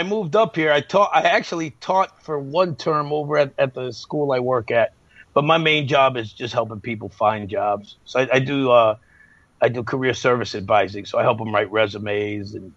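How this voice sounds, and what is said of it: Radio voice. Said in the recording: “you got the radio voice.”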